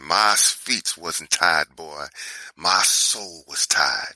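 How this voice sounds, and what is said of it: Imitation of Rosa Parks' Alabama accent. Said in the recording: “She said in her Alabama accent”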